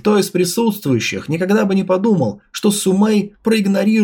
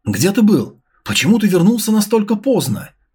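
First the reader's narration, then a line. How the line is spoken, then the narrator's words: Slightly plaintive. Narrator (Russian): немного жалобно произнесла Сумэй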